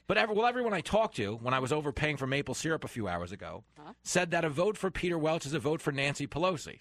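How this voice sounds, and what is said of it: New York accent. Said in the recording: “I'm a New Yorker. People hear my accent”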